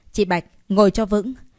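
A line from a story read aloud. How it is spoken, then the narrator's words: Deep loud shout. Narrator (Vietnamese): Anh trầm giọng hét lớn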